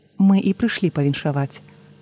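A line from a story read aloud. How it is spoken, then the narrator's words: Plain, group. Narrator (Belarusian): адказалі мы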